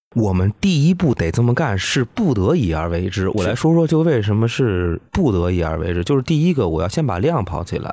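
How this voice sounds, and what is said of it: Beijing Mandarin accent. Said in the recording (Chinese): “听您北京口音”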